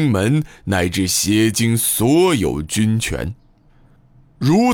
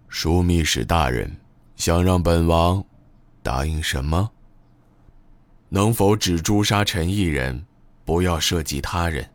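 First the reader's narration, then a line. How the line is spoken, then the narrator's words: Flat, calm reply. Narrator (Chinese): 阿迪布淡淡的答道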